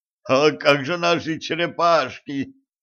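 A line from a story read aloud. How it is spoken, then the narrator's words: Moaning from behind. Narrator (Russian): простонал за его спиной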